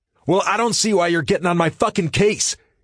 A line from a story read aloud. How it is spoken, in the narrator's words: Jay shouts